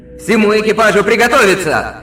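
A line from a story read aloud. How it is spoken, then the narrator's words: Roaring command. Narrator (Russian): Взревел адмирал Дерриган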